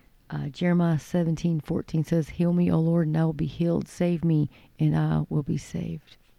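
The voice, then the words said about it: Weak, hoarse voice. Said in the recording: “apologize for my voice. I just cannot seem to get my voice back”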